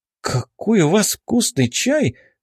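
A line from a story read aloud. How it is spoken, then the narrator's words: Exclaiming. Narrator (Russian): воскликнула она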